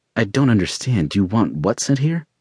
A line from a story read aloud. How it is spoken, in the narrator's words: Scott asked, his voice wavering as he braced himself for the assault